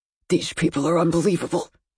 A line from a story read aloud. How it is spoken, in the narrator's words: Gordon hissed